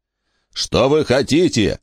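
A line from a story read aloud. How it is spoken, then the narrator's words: Frantic shouting. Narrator (Russian): кричал Джон, как пойманный зверь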